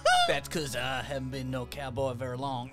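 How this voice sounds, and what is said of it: Put-on character accent. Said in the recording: “my accent doesn't slip”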